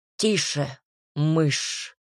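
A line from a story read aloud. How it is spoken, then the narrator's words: Growling. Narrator (Russian): рыкнул он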